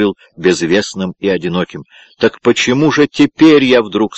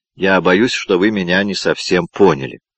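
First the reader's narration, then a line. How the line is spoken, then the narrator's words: Gentle remark. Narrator (Russian): мягко заметил Мартин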